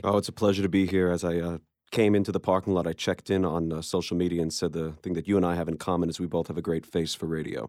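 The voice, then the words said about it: New York accent. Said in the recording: “is that accent... you hear, you know, like walk the dog and get a coffee. Right. That's the New Yorker in him... it's about the closest accent to an Australian accent that you can find in America.”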